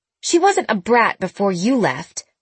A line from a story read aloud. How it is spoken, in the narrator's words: Jenna snapped